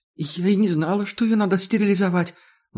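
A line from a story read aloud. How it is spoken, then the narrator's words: Trembling voice. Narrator (Russian): Зина дрожащим голосом сообщила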